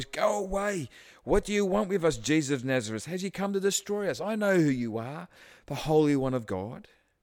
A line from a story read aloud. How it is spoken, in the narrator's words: He cried out at the top of his voice